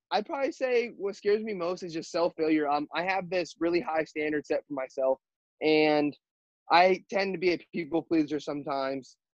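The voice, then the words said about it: High-pitched voice. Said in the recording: “my voice gets high ... my voice cracks all the time ... I have a high pitched voice”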